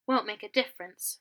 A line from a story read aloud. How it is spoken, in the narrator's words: Remus muttered